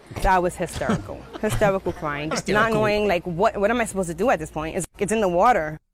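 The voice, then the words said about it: Attractive noticeable accent. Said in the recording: “her sexy accent”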